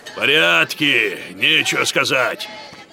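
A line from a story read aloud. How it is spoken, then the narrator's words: Grumbling neighbor. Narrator (Russian): проворчал сосед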